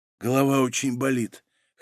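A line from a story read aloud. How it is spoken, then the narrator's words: Hoarse, just awakened. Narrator (Russian): хрипло ответила очнувшаяся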